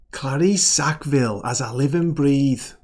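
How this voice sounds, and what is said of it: Put-on Liverpool accent. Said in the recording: “Okay, that's enough of me, Liverpool accent. Liverpool?”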